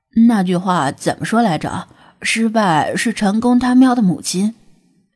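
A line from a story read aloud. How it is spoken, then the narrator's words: Self-mocking, feigned ease. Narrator (Chinese): 他自嘲的笑了笑，故作轻松的说道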